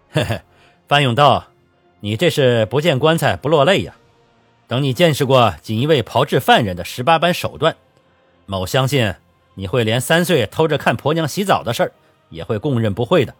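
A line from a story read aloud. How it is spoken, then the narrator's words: Cold sneering laugh. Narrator (Chinese): 左近忠嘿嘿的冷笑道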